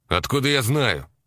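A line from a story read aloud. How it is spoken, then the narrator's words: Snapping back. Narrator (Russian): огрызнулся он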